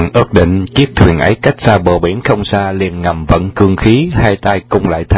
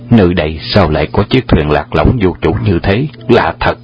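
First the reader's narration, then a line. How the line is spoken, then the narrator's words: Muttering to himself. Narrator (Vietnamese): Hoàng Dược Sư lẩm bẩm tự nhủ lấy mình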